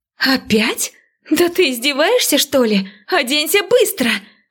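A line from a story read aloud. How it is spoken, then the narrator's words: Exasperated exclamation. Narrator (Russian): Воскликнула я, вновь увидев обнаженного Лорана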